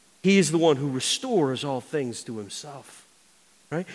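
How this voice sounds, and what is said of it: Loud, booming voice. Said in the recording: “my voice is loud and obnoxious”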